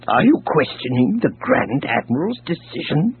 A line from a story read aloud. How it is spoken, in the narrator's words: Dizra snarled